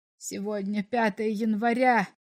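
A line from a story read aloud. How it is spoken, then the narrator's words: Despairing mutter. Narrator (Russian): в отчаянии пробормотал комиссар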